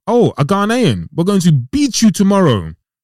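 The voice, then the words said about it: Poor imitation of Nigerian accent. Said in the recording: “Nigerian accent. Poor one.”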